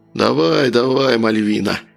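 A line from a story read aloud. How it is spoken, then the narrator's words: Wheezed. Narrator (Russian): просипел незнакомец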